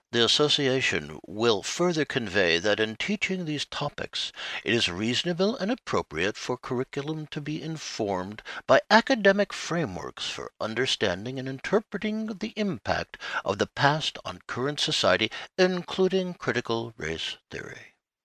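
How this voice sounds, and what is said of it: Imitated NPR radio voice. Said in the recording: “in my best NPR voice”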